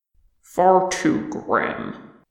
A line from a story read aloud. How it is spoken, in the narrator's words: Thorin grunted